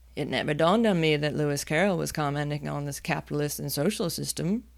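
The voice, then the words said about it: Poor put-on Liverpool accent. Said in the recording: “that was the worst Liverpool accent ever. That was awful.”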